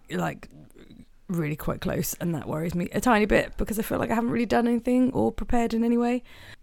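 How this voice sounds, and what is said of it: Congested, snotty voice with a cold. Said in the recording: “I'm well ill. I've gotten a cold from somewhere ... apologies if I sound like a barrel. I don't know if that's what people who have colds sound like ... making some snotty noise”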